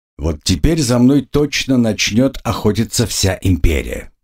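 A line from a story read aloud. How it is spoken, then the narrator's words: Muttered. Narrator (Russian): пробормотал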